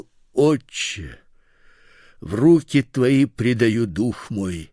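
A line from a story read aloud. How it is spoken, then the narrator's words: Loud cry. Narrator (Russian): Иисус, возгласив громким голосом, сказал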